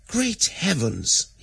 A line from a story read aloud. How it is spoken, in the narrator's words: exclaimed